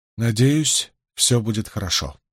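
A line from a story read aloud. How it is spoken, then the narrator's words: Tired mutter. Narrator (Russian): устало пробормотала Найниф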